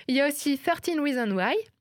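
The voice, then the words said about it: Put-on accent on English title. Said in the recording (French): “Je l'ai dit avec mon plus bel accent en plus.”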